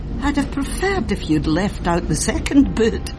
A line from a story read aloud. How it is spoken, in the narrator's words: laughed back